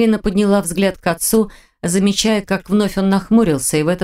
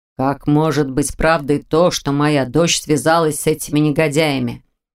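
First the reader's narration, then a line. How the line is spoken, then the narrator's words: Hollow muffled voice. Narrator (Russian): глухо проговорил Аркадий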